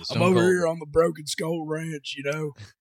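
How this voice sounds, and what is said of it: Gravelly Texas-accented impression. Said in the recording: “You just gotta talk at the back of your throat, man, like you've been screaming for 30 years... Texas accent... you also gotta work in that Texas. It's a little too much twang on my end... the back of your throat, but it's also got that gravel to it”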